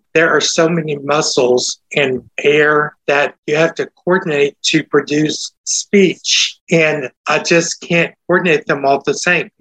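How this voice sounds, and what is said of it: Hoarse, uneven speech with Texas accent. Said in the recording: “That is like my voice sounding hoarse now... My vocal cords move at different speeds. And so that's why I sound like I do... I thought that was just your Texas accent... part of it is my Texas accent”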